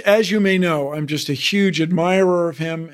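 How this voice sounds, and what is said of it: Steve Martin impression. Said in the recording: “your Steve Martin impression”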